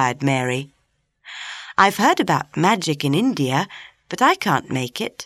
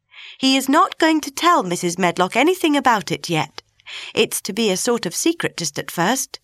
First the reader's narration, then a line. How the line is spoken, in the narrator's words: said Mary firmly